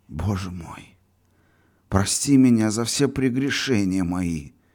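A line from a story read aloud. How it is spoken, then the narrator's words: Fervent humble dry whisper. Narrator (Russian): В смиренном сосредоточении и в пламенном порыве прошептал он бледными пересохшими губами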